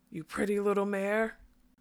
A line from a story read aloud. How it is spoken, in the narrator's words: he gasped